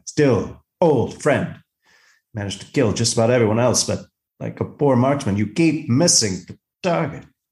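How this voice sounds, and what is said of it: Imitates a character's voice. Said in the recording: “I would love doing my Captain Kirk impression”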